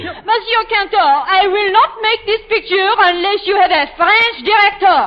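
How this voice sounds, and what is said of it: Exaggerated French accent. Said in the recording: “that bum accent ... you better go before you lose your accent”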